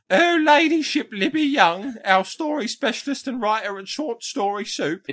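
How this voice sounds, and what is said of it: Exaggerated poor English accent. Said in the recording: “do a poor English accent again? ... that voice”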